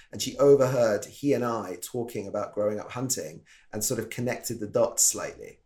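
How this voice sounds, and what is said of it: British accent. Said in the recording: “I'm from the UK. You can probably tell from my silly voice.”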